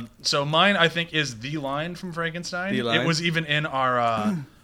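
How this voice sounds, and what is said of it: Usual voice. Nothing is said of it.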